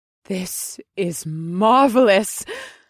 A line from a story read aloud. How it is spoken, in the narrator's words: she gasped